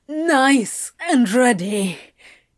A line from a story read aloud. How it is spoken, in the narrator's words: Crowley answered, huffing a laugh, although the cheekiness was lost in a groan